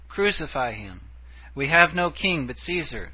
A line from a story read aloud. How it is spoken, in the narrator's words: In Pilate's court they had cried